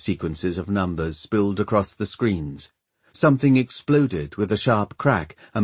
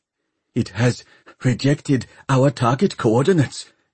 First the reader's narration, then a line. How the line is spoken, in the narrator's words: gasped Dr